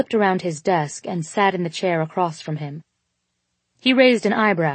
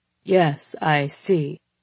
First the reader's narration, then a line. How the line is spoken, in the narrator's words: he said, but his voice was deeper even still, hoarse now